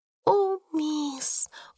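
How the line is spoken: Excited whisper. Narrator (Russian): взволнованно прошептала Бекки

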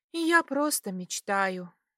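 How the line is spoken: Sighing. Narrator (Russian): вздохнула

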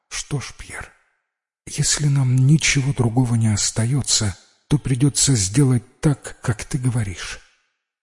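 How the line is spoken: Barely audible tearful wife. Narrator (Russian): Жена утерла горючую слезу и чуть слышно произнесла

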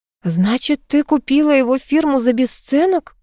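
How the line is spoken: Muffled, flat. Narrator (Russian): глухо произнесла Оля

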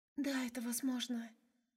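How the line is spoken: Whisper. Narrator (Russian): шептала Фэй

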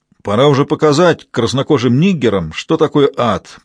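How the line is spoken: Grumbling voice. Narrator (Russian): проворчал чей-то голос

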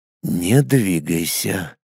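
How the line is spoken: Quiet whisper. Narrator (Russian): тихо так прошептал

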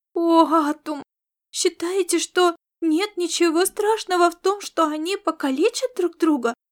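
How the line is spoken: Astonished exclamation. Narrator (Russian): воскликнула Аэлита, пораженно глядя на борца

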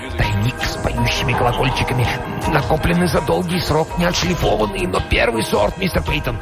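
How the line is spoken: Whispering. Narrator (Russian): Корнуэлл шептал

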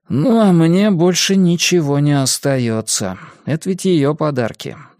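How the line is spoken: Sigh. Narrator (Russian): вздохнул Феликс

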